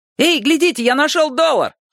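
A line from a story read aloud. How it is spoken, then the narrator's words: Shout. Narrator (Russian): крикнул один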